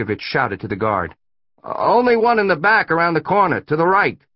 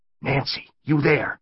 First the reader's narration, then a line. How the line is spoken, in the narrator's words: Franciscovich whispered into her handy-talkie